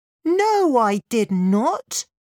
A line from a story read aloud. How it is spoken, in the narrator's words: snapped Lin